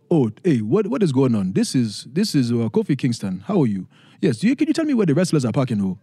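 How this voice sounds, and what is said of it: Put-on African-esque accent. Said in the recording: “a little African-esque accent, trying to imitate my parents”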